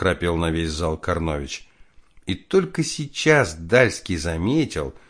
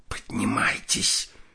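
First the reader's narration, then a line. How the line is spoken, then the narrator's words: Hissed. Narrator (Russian): прошипела Соснина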